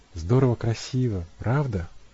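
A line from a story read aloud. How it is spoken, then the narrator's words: Sighing. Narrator (Russian): вздохнула Эбби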